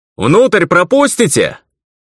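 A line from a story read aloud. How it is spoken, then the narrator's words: Loud shout. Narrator (Russian): громко выкрикнул я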